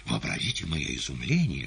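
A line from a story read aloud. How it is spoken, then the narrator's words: Whispered. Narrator (Russian): шептал гость в черной шапочке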